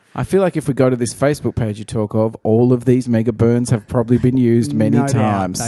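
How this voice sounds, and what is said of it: Usual voice. Nothing is said of it.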